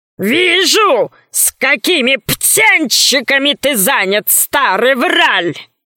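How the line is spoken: Gorilla growling. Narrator (Russian): зарычала горилла

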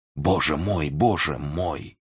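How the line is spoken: Reverent whisper aloud. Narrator (Russian): благоговейно шептал вслух

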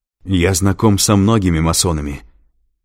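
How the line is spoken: Said angrily. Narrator (Russian): зло проговорил Лэнгдон

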